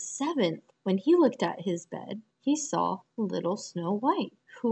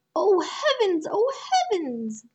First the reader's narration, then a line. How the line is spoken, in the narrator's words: cried they